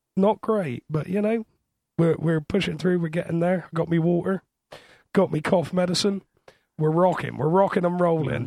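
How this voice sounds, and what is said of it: Croaky, hoarse voice. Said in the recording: “As you can hear, I'm still a little bit croaky. It is laryngitis”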